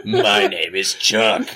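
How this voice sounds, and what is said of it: Funny put-on voice. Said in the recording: “why are you talking funny?”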